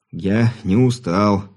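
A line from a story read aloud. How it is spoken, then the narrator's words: Stubborn young man muttering. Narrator (Russian): упрямо пробурчал невысокий широкоплечий парень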